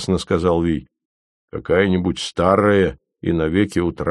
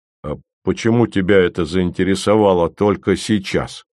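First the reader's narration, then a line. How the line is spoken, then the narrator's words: Snorting. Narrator (Russian): хмыкнул Ви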